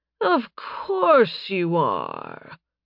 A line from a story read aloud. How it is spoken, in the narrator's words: Tonius purred